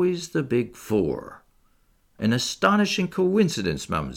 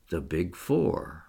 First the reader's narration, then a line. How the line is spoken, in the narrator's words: murmured Poirot